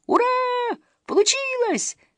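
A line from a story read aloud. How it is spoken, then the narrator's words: Excited yelling. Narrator (Russian): завопила Камикадзе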